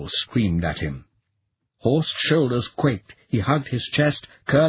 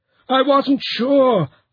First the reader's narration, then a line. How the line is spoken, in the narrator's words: Horst wailed